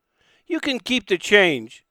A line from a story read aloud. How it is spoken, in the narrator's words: she said kindly